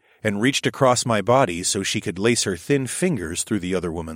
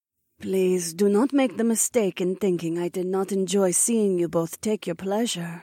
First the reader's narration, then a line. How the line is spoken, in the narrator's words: Zoe purred